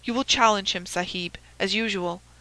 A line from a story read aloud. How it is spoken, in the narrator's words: whispered Abdullah